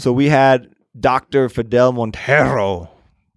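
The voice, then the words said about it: Bad put-on accent, rolled R's. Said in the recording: “That was a really bad accent, but I did it anyway. ... You can actually roll your R's.”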